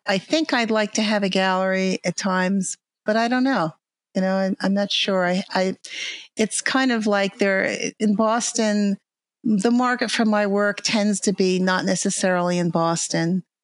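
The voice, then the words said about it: Long Island New York accent. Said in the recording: “a, Long Island accent I can detect, isn't it? ... You think I would have gotten rid of this New York ... accent.”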